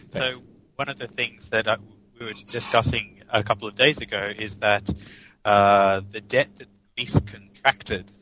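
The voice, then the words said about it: Quiet, smooth British accent. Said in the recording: “You're a bit quiet ... your voice. You're so silky smooth. ... The British accent.”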